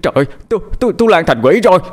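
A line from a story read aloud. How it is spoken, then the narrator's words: Screaming. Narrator (Vietnamese): Tiếng thét của cậu Điền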